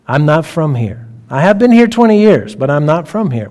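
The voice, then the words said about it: Slight Texas drawl. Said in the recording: “hear in my voice a little Texas drawl”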